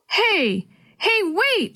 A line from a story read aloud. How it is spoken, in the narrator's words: she shouted as she and Dee Dee ran